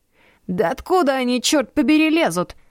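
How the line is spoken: Shouted. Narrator (Russian): прокричал он

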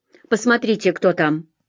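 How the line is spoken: Growled. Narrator (Russian): Сержант прорычал

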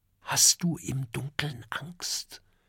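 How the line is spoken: Whispered. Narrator (German): flüstert Oskar

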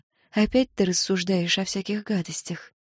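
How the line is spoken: Whisper. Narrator (Russian): София шепнула

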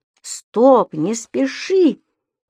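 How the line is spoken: Exclamation. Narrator (Russian): воскликнул Пепперминт

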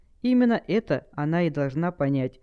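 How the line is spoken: Calm reply. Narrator (Russian): спокойно ответил Сайсиен

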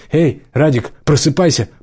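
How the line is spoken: Sergeant's sharp shout. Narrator (Russian): прикрикнул сержант

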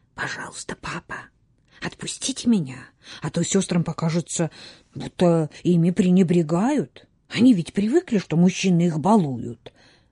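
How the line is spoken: Boy's conspiratorial whisper. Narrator (Russian): мальчик заговорщицки прошептал

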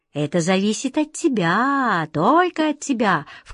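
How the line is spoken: Insinuating, silky. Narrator (Russian): вкрадчиво проговорил король

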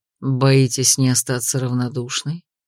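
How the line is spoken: Low whisper in ear. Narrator (Russian): Низким шепотом прошептал он мне на ухо

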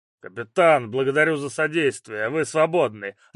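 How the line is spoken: Growled. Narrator (Russian): рыкнул Долгорукий

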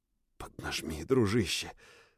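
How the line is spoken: Whisper into horse's ear. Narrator (Russian): снова прошептал я в лошадиное ухо

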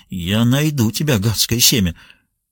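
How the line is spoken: Muttering under breath. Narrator (Russian): бормоча себе под нос

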